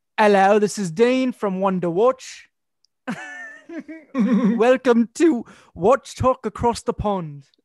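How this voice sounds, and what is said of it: Attempted British accent. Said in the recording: “I can't do a British accent, I don't think. ... Is it going to sound British or is it going to sound Australian? ... It's going to be a mixture of both.”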